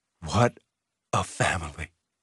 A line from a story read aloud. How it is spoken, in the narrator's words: he said softly